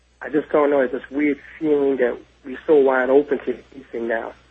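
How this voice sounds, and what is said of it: New York City accent. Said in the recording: “if I'm listening carefully enough to your accent, I detect you're probably from New York City.”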